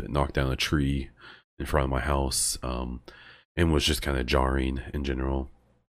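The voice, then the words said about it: Slightly sick, congested-sounding voice. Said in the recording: “I've become fairly sick. You might even be able to tell. ... you can probably hear my voice is a little different. Just allergies are killing me.”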